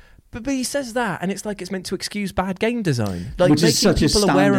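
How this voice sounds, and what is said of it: Usual voice. Nothing is said of it.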